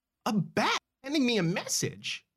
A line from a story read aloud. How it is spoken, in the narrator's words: Marcy exclaims